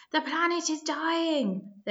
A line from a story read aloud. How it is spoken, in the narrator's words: they cried